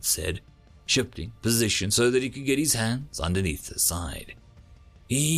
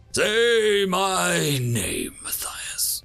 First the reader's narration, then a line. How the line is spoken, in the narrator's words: Daxon snarled